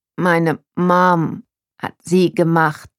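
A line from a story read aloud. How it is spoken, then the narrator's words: Slow. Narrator (German): sagte langsam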